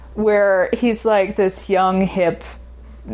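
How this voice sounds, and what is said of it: Usual voice. Nothing is said of it.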